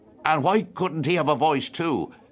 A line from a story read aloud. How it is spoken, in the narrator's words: asked Freddie Malins sharply